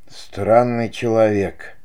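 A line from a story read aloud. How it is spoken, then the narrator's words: Whispered. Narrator (Russian): прошептал управляющий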